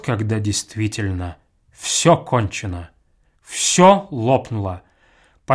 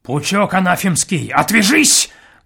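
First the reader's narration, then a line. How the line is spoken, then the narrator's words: Sudden furious bark. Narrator (Russian): гаркнул он вдруг, бешено сверкнув глазами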